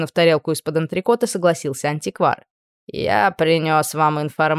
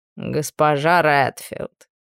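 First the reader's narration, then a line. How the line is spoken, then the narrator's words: Reproachful drawl. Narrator (Russian): укоризненно протянул Бонне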